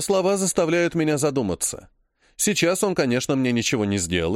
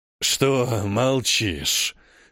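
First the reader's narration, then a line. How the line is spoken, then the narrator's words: Rasping. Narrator (Russian): хрипит демон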